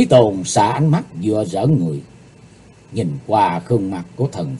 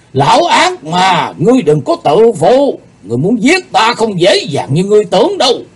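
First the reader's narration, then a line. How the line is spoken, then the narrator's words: Furious shout. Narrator (Vietnamese): Thần Phong đạo nhân giận dữ quát lên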